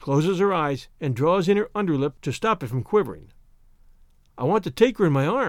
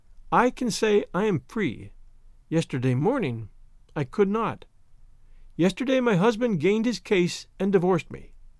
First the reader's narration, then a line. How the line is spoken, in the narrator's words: she was sobbing